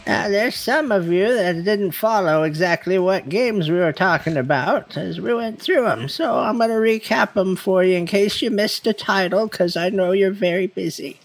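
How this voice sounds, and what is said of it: Old lady character voice. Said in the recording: “in your grandma voice? ... goes old lady.”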